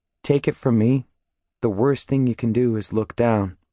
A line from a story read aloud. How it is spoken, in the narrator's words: In my regular, non-preacher voice, I say, as calmly as possible